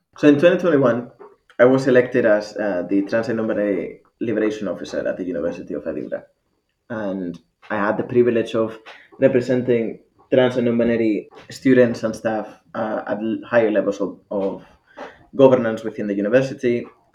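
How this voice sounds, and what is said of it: Mixed Spanish and Scottish accent. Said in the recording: “I've got this fucking mix between Spanish and Scottish that nobody understands”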